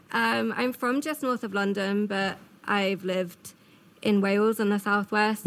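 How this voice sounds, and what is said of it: Charming English accent. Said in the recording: “you have a very charming accent”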